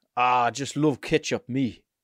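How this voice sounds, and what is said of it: Put-on Sunderland accent. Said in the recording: “Sunderland's surely a softer Newcastle accent... actually have a Sunderland accent... That was better.”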